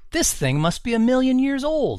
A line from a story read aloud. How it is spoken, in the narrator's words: exclaimed Greg